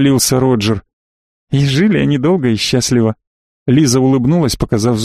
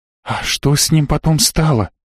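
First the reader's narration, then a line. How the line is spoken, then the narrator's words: Whispered question. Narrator (Russian): шепотом спросила Йока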